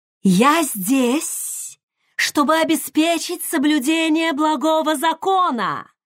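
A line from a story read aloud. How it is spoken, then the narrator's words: Loud, clear shout. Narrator (Russian): прокричала Цуга громко и ясно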